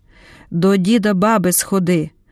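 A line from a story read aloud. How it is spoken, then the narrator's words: Stern command. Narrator (Ukrainian): наказала суворо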